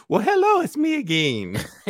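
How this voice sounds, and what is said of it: Impression with a Mexican-sounding accent. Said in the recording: “A good impersonation ... make him sound like Mexican.”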